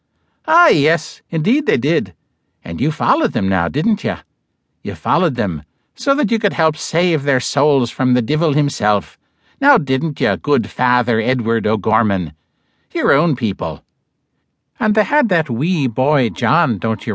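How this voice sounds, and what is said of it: Irish brogue character voice. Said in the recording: “Again in the Irish brogue.”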